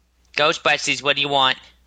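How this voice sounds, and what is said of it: Put-on New York accent. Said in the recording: “That's my best New York accent... both of you guys just hurt my ears”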